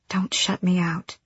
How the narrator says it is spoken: she breathed

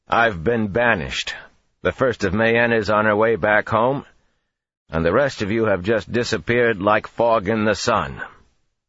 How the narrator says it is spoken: he said loudly

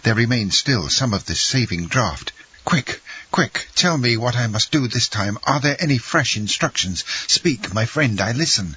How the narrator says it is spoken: he exclaimed

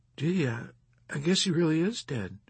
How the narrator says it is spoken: grieved one of his enlisted men in a low, respectful voice

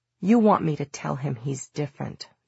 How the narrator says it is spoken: Julian said coldly

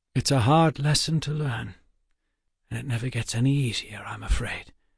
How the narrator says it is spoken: Waylon almost whispered

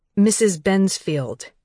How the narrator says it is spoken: Danny said firmly

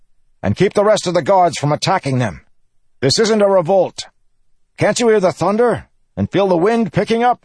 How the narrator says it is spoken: shouting orders

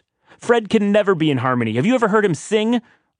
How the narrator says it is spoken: I yelled to remind him that I'm always ready to battle

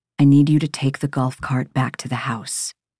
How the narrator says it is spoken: His voice is resolute when he says

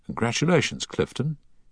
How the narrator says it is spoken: he said softly

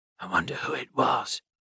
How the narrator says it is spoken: Enoch whispered

